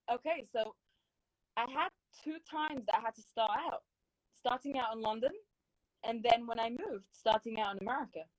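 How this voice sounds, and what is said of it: Speaks with a noticeable accent. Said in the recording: “See my accent.”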